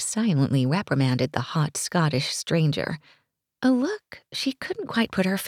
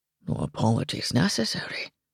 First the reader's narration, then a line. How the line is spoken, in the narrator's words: he murmured, his voice a low rumble